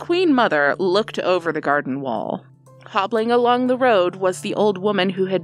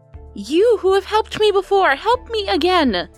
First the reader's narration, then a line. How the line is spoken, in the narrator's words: cried the Queen Mother